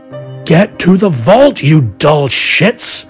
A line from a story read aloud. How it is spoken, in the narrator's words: bellowed to the guards who were wondering what was going on